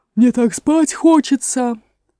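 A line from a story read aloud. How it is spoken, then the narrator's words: Sleepy moan. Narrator (Russian): простонала она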